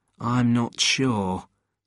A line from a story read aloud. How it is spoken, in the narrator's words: Jed said in a worried voice